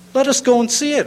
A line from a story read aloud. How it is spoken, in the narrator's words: exclaimed the collector